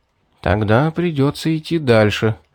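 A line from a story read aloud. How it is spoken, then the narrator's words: Sighing. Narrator (Russian): вздохнул я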